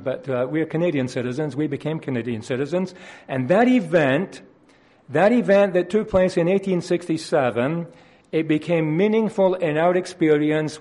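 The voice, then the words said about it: Scottish accent. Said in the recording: “You will no doubt recognize that from my accent, coming as I do from Scotland”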